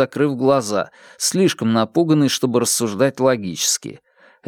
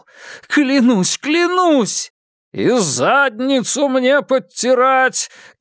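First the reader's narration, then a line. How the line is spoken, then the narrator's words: Shouting. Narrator (Russian): кричал Яков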